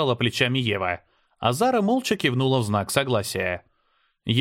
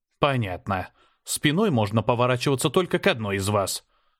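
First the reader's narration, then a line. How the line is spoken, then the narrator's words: Mutter. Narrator (Russian): пробормотал я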